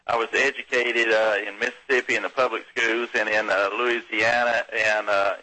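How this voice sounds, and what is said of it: Southern US accent. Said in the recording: “As you can tell by my accent, I'm an old southern boy.”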